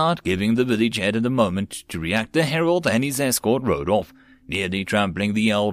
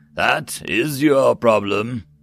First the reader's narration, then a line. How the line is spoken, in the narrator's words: the herald said in a disinterested tone